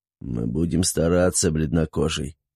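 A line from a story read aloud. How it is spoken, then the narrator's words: Hoarse rasp. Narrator (Russian): прохрипел он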